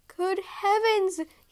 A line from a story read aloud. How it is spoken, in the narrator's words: he gasped